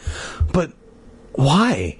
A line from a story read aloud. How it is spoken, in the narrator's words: Hannah asked in a tiny voice